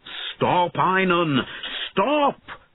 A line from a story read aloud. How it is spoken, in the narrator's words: shouted Bowen